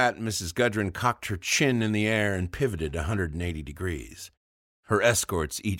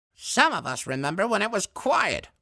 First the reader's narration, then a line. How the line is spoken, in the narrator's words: barked Mrs